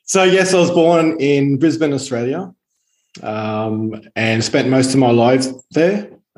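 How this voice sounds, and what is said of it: Australian accent. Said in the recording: “you sound Australian”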